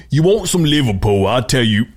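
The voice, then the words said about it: Put-on country accent. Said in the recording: “You went back to country”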